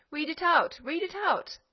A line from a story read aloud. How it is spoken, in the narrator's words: they cried louder